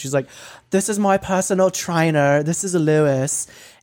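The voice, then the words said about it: Put-on British accent. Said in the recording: “doing that voice, but she's like British. So I'm going to try it in a British voice.”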